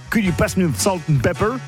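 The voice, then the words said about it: Thick-accented imitation of another person. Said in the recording (French): “avec son accent à couper au couteau, ça donnait un truc comme”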